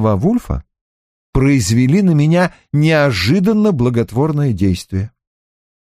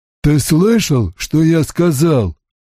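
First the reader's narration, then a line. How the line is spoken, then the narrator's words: Flat colorless voice. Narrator (Russian): Все тем же бесцветным голосом произнес Микер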